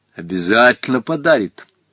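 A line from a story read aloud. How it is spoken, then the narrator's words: Stern repetition. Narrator (Russian): строго повторил Гога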